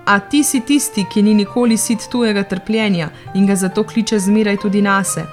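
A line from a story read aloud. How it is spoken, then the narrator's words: Man exclaiming. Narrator (Slovenian): mož Racak je vzkliknil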